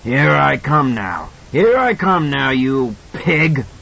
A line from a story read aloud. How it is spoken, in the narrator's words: that hoarse voice bellowed